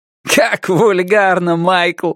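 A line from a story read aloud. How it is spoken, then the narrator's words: Laughing. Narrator (Russian): Сторроу рассмеялся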